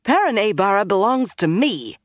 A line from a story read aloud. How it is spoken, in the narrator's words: she snapped